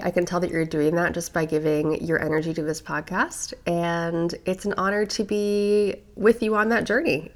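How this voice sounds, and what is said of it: Congested voice from a cold. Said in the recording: “I have a little cold. I feel like I sound a little bit different”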